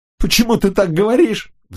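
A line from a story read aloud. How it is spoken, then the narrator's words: Howl. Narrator (Russian): взвыл Фернандо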